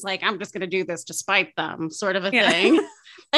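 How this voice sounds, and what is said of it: Old-time carnival barker accent. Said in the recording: “I don't know why he has like an old time carnival accent.”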